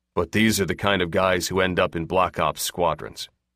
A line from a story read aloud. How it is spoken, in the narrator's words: the wing commander said flatly